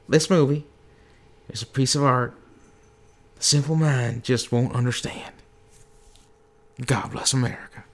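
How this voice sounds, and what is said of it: George W. Bush impression. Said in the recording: “George W. ... Bush ... Says, doing this his accent.”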